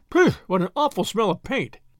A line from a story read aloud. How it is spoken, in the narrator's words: cried the inspector